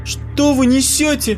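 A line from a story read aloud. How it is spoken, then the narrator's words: Shouted out. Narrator (Russian): выкрикнула Ксюша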